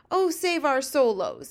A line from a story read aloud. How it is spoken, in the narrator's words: he cried